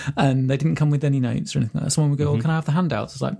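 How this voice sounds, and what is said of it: Usual voice. Nothing is said of it.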